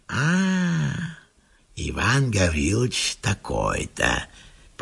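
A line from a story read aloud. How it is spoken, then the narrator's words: Dull mutter to himself. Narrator (Russian): повторяет он глухо про себя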